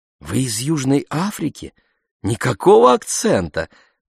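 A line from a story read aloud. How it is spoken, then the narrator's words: Exclaiming. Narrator (Russian): воскликнула Мариама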